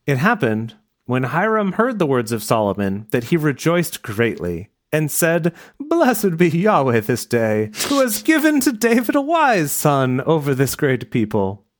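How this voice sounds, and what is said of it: Put-on accent for a character. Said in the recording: “what is this accent?”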